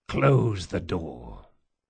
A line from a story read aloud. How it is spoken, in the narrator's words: said Locke, and his voice was steady, rich with the absolute presumption of command